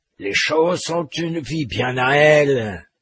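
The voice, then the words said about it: Guttural accented character voice. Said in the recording (French): “clamait le gitan avec un accent guttural.”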